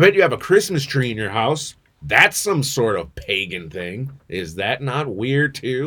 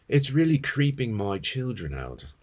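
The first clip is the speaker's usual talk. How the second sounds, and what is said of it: Put-on accent reading a post. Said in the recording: “I'm not doing the accent. Fine, I will.”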